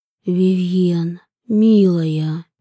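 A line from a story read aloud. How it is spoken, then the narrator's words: Muffled mutter. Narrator (Russian): Глухо пробормотал он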